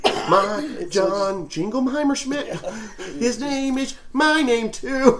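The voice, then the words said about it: Weak attempt at Maine accent. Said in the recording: “That's not a good Maine accent.”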